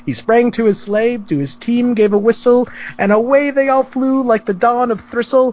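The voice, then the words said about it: Exaggerated Dolores Claiborne-style accent. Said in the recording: “what kind of Dolores Claiborne accent is that? ... you committed to that 110%”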